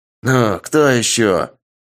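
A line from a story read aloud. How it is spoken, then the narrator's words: Menacing young man. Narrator (Russian): грозно произнес парень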